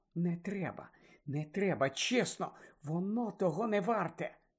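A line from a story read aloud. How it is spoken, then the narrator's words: Whispered. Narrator (Ukrainian): Герміона, що стояла за ними, прошепотіла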